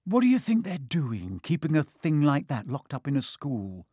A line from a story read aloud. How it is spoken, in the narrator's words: said Ron finally